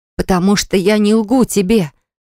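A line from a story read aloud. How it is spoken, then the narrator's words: Breathless exhale. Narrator (Russian): выдохнула я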